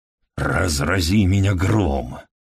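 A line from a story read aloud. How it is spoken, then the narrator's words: Furious mutter. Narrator (Russian): яростно пробормотал Хедли себе под нос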